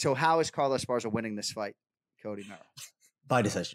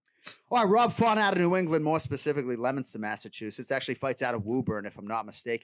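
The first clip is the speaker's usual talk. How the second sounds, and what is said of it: Put-on Boston accent. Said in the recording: “I'm going to do this entire prediction in a Boston accent”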